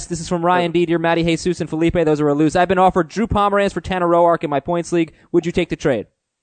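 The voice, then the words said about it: Reading very fast. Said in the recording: “going to read this really fast.”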